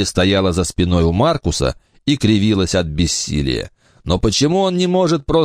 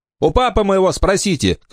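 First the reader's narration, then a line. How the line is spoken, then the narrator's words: Shouted. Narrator (Russian): крикнул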